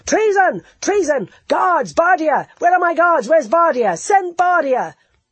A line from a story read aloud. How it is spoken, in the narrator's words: roaring